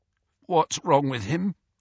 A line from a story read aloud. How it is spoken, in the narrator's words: croaked Fred, looking terrified